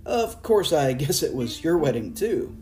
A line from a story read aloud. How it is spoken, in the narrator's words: into the silence I blurted